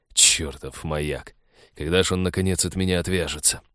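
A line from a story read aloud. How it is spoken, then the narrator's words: Annoyed muttering. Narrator (Russian): досадливо пробормотал капитан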